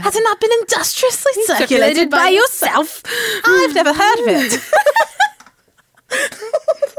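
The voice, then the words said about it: British accent imitating an actress. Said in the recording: “you sounded really, real close to her ... I can do Keira Knightley ... I don't got a British accent, I got a Keira Knightley ... My British is Keira Knightley”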